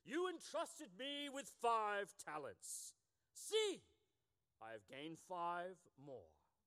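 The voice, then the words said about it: Switches to a different accent. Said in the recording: “he suddenly became another accent.”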